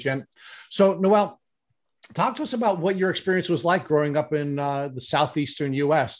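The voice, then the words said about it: New York accent. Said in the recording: “our ugly accent ... our New York accent ... the way we have butchered the English language”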